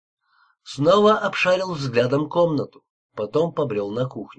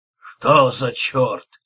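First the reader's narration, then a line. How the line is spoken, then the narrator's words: Muttering. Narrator (Russian): донеслось его бормотание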